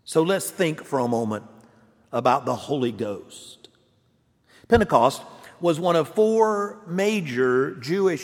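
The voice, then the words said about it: Non-New England American accent. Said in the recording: “my accent has not given it away already, I am not a New Englander”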